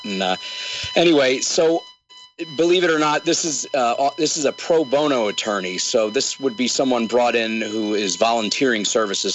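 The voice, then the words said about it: Sick, strained voice. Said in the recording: “you'll have to excuse my voice. I'm fighting a mysterious respiratory illness”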